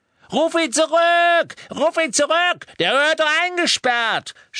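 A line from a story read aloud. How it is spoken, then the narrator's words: Panicked scream. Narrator (German): schrie Mandankes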